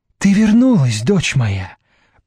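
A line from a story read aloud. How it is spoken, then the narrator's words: Excited speech. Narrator (Russian): проговорила взволнованно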